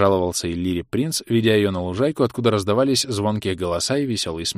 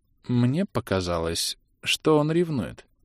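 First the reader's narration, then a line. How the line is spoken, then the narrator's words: Uncertain. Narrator (Russian): неуверенно сообщила ему жена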